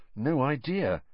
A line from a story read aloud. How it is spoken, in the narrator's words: Harry muttered